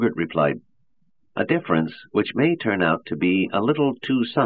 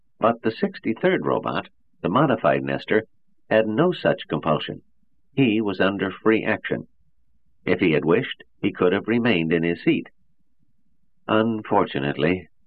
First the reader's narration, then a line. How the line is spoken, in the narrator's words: his voice was mildly regretful